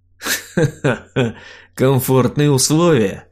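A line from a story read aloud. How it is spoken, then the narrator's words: Guffawing. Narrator (Russian): хохотнул я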